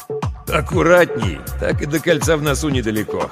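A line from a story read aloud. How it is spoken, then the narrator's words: Laughing. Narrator (Russian): хохотнул Ермолов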